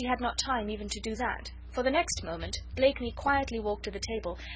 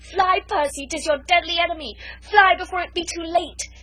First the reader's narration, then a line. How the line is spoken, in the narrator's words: she very nearly screamed out to him